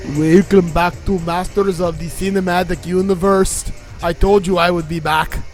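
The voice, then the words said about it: Poor Arnold Schwarzenegger impression. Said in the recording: “That's my terrible Arnold Schwarzenegger. ... everybody in the world does an Arnold impression ... Still not good.”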